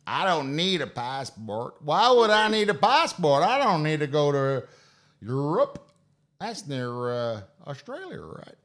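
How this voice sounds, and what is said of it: Very bad put-on American accent. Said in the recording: “That's the most worst accent ever.”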